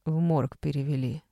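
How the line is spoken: Even-voiced clarification. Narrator (Russian): ровным голосом уточнила соседка

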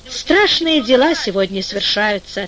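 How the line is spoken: Plain. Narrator (Russian): ответил слепец

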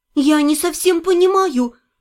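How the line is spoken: Timid, surprised. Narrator (Russian): робко сказала я, несколько удивившись столь странному поручению

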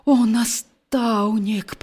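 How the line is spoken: Groan. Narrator (Belarusian): прастагнаў Геракл

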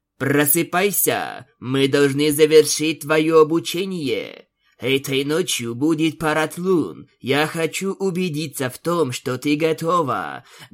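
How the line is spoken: Loud speaking. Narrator (Russian): громко говорила Аланис

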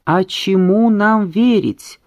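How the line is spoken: Shouting crowd of rebels. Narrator (Russian): кричали мятежники

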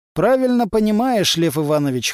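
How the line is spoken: Wry snort. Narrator (Russian): хмыкнул Стас

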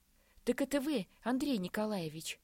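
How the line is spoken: Sudden joyful exclamation. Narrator (Russian): воскликнул он вдруг радостно

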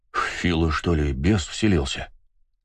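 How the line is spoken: Uncertain mutter. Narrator (Russian): Неуверенно пробормотал чернявый лохмач

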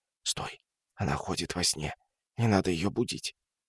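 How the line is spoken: Whisper. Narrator (Russian): прошептал

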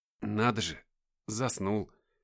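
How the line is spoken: Muttering. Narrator (Russian): пробормотал я

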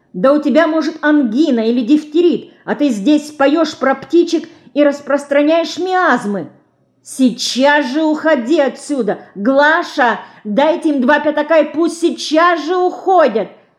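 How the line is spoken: Shouting. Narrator (Russian): закричала она своей горничной

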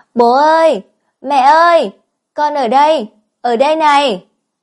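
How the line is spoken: Loud shout. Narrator (Vietnamese): Mạc Phi hét lớn tiếng

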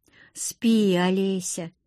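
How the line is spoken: Tired reply. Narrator (Russian): устало ответил он

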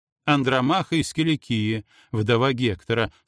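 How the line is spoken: Calm reply. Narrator (Russian): спокойно ответила она

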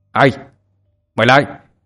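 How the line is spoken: Shouting into radio. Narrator (Vietnamese): Anh quát vào trong bộ đàm

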